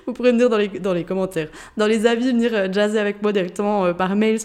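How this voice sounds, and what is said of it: Swiss Jura French accent. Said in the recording (French): “Je pense que tu l'as entendu avec mon accent. Il me semble que je le perds pas, mon accent jurassien ... mon accent jurassien de, de Suisse”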